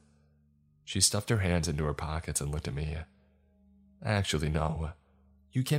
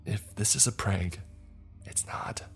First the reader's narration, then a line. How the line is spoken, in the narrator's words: I whispered